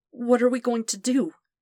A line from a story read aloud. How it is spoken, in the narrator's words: asked, his voice wavering a little on the words